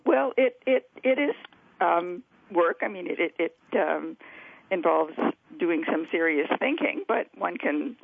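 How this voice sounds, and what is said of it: Slightly croaky, hoarse voice. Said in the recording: “I have a little bit of a frog in my throat, so if I sound a little croaky”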